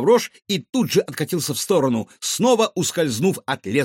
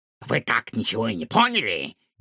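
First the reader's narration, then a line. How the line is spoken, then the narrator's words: Hoarse giggle from beak. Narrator (Russian): Из клюва Сяо Вэня раздалось хриплое хихиканье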